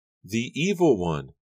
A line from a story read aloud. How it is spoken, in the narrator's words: she cried